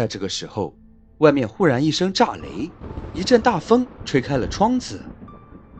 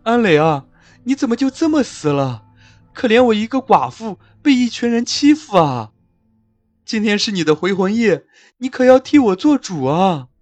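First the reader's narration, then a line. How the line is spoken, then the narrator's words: Crying and wailing. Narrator (Chinese): 小杰又哭又叫，冲着棺材里的尸体说道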